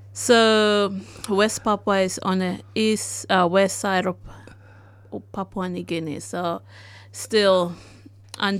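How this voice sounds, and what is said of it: West Papuan accent. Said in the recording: “that's an accent, isn't it, I hear? ... Sort of, yeah. ... my background is from West Papua”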